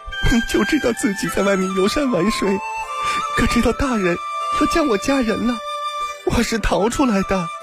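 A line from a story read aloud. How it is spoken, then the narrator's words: Sudden soft sobbing. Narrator (Chinese): 玉仙忽然嘤嘤地哭了起来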